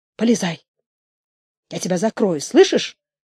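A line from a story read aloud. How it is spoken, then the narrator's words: Whisper. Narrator (Russian): сказала она шепотом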